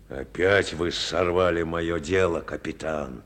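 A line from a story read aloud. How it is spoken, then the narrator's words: Angry muttering. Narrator (Russian): пробурчал злобно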